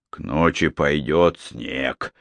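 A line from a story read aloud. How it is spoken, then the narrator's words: Grumbling. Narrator (Russian): проворчал один из них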